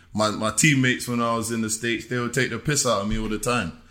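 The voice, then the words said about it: English accent. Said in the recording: “being the English guy ... The accent. ... God, you're from England.”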